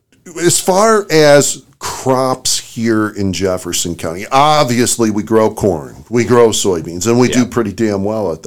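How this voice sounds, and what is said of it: Strained, recovering voice. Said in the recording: “my voice is still trying to recover from the baseball COVID game last night. And COVID weeks ago.”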